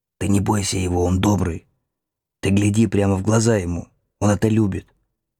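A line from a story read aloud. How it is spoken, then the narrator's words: Soft whisper. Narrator (Russian): шепнул тихонько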